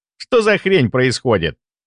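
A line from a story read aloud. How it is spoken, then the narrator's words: Irritated question. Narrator (Russian): раздраженно спросил Антон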